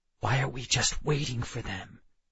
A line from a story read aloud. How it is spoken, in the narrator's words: I whispered